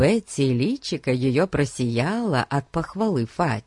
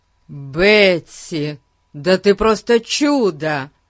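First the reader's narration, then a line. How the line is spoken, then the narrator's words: Excited exclamation. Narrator (Russian): воскликнул Фати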